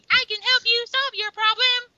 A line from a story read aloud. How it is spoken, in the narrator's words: she's just screaming the entire time